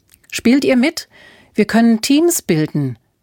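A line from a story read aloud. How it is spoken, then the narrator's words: Calling out. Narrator (German): rief Alfred ihnen zu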